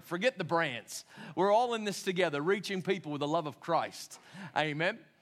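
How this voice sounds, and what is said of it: Unusual-sounding accent. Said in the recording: “what's with my funny accent?”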